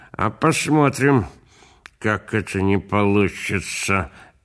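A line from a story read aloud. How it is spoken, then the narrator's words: Spoken through clenched teeth. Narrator (Russian): говаривал дядя Шура сквозь зубы, потому что у него во рту была папироса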